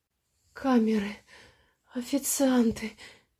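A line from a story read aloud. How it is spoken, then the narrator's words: Moaning into ear. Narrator (Russian): простонала она на ухо Саше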